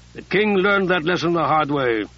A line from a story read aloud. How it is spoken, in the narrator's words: Eumenes said dryly